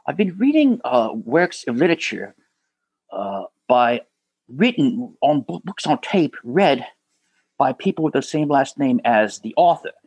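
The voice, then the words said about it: Poor imitation of a film character. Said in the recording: “That's a terrible impersonation”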